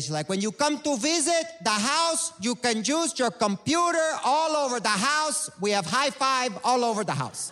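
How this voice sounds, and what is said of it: Imitating mother's Cuban accent. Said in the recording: “She has this accent that people really enjoy.”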